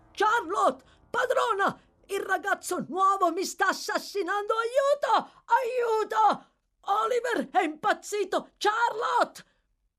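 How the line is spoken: Screaming. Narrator (Italian): Agli urli di Noah

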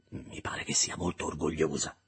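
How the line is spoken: Whispered. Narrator (Italian): sussurrai

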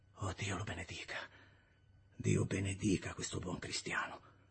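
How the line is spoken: Contrite murmur. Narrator (Italian): mormorando contrito

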